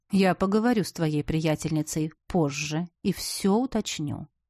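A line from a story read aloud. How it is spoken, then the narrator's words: Soft promise. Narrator (Russian): мягко пообещал жених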